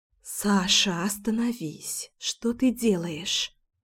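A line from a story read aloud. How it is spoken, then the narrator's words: Whispered through kiss. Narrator (Russian): прошептала я сквозь поцелуй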